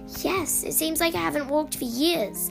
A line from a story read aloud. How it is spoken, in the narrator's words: Olivia exclaimed